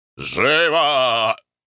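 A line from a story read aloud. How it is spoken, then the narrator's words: Shout. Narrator (Russian): закричал Николай Иванович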